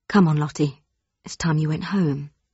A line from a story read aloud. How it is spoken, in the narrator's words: gently, a voice said